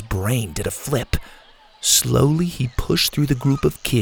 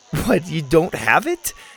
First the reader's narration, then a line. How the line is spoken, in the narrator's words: She laughed